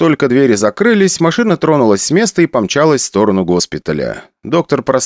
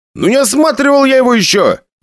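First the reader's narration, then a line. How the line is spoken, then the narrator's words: Exclaiming. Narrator (Russian): воскликнул он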